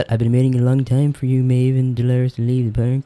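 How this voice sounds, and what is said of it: Imitates a TV character's voice. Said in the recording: “Is that your Serac imitation? ... It's like a mixture of Ringo and Serac.”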